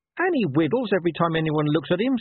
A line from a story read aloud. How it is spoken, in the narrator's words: snapped Gaspard